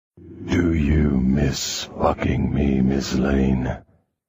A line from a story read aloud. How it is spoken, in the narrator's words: He purred against my ear